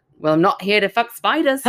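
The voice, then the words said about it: Put-on Australian accent. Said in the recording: “now I want to hear it in an Australian accent ... I'm not very good at Australian. ... I thought that was really good.”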